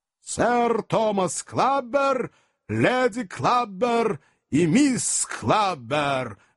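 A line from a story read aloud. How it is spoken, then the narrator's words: Thunderous announcement. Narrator (Russian): громовым голосом провозгласил лакей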